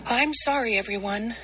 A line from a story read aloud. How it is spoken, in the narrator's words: Amu sighed